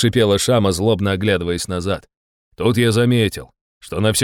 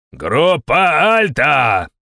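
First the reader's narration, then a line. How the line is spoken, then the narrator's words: Yelling. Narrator (Russian): заорал я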